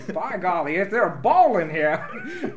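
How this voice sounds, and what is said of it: Put-on Southern accent. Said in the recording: “Then you went with like a southern accent.”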